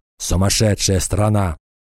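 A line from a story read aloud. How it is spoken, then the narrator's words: Grumbled. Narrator (Russian): проворчал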